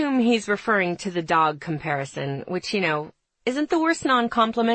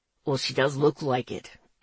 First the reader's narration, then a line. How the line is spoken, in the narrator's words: he grumbles